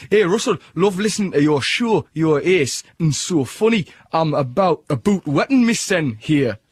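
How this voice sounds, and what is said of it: Put-on Geordie accent. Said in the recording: “That's to be done in a Geordie accent.”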